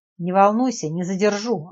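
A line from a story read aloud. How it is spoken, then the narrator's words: Snapping back. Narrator (Russian): огрызнулась Надежда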